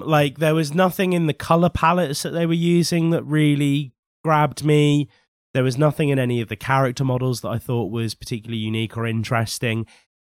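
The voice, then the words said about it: Slightly husky voice, cold. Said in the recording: “I'm recovering from a cold. So if I just sound a little bit husky in this episode”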